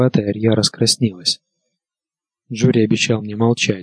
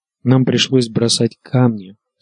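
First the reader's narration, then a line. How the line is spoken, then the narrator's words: Unhappy voice. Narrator (Russian): сказала Арья несчастным голосом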